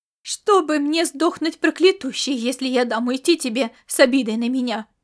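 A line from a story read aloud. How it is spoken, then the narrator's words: Determined exclamation. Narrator (Russian): воскликнула она, полная решимости стоять до конца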